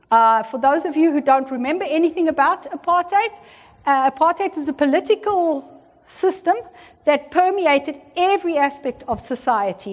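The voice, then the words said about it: South African accent. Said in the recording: “where I come from? ... who said South Africa? ... My accent was good enough.”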